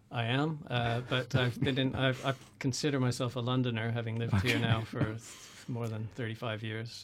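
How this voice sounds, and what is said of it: Canadian accent. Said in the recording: “from your accent, you are Canadian”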